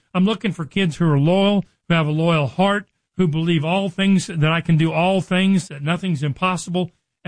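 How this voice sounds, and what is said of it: Excited, energetic speaking. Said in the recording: “you can hear the excitement in my voice”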